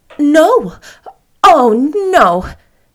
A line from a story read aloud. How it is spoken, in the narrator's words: cried Anne, flushing so guiltily